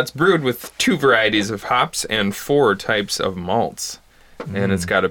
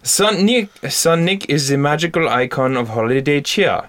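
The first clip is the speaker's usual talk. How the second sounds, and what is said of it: Put-on German accent. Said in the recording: “should I read this in like a German accent?”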